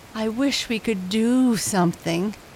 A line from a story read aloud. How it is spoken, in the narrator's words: moaned Gatika